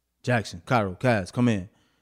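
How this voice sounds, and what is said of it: Stern dad voice. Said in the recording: “like I'm a stern dad voice.”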